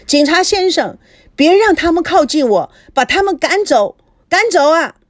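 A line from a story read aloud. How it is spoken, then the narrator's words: Sudden shout. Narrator (Chinese): 赵熙看到警察，突然喊道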